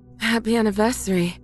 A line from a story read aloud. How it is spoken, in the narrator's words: my wife says between pants